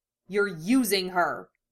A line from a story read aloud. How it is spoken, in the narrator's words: snarled